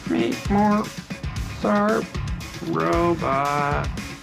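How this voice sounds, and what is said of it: Bad robot voice. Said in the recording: “do the robot voice ... That's a terrible robot voice.”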